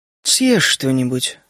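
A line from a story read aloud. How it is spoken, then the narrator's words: Calm repetition. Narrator (Russian): спокойно повторила леди Теннесси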